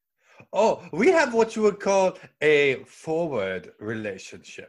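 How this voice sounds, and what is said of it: Put-on German accent. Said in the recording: “If you cannot tell by the accent, I am pure blood German”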